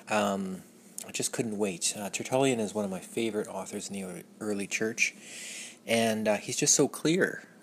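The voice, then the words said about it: Mellow, tired, stumbling speech. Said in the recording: “my mellow tone of voice and my stumbling over words, it's late”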